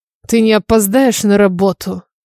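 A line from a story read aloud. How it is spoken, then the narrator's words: Cold question. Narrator (Russian): Холодно поинтересовался он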